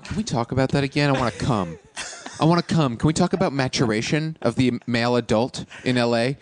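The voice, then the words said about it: Imitates another person's voice. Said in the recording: “my impression of Sean”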